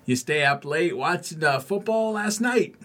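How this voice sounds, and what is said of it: Weak put-on Massachusetts accent. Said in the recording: “can't do accents. ... What's a Massachusetts accent?”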